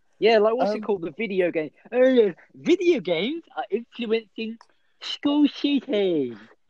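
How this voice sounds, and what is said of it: Put-on mocking accent. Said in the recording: “what accent was that? Because that's not what Donald Trump said. ... You didn't need to put an accent.”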